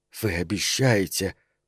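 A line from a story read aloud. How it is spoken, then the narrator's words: Snake-like female hiss. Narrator (Russian): по-змеиному шипела она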